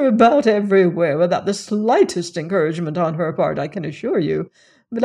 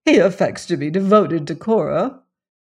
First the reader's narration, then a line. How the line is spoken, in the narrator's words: her mother went on bitterly